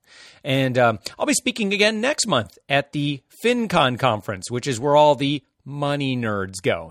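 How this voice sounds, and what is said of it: Slightly hoarse, strained voice. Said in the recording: “my voice sounds maybe a little bit different, and I've got what you'd call a post-conference voice. It's a little hoarsey”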